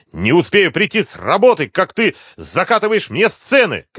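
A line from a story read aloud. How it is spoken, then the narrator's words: Shouting, unrestrained. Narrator (Russian): кричал он, уже не сдерживаясь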